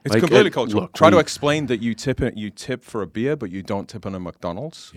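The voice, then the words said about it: British accent. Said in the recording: “as a British person in America ... they hear my accent”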